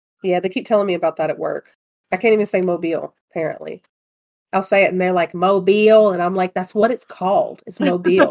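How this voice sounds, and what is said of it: Noticeable regional accent. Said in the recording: “accent comes out”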